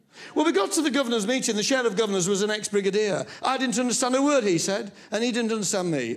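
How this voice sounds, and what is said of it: Yorkshire accent. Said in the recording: “I hope that you will speak rather more slowly, because the girls, might not quite pick up what you say, what with the Yorkshire accent that you have ... And me in the middle with the Yorkshire accent.”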